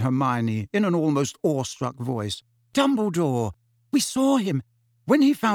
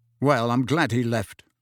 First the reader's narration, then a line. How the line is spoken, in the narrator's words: Harry said coldly